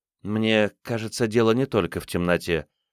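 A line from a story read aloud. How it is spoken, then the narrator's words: Muttered. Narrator (Russian): пробормотала учительница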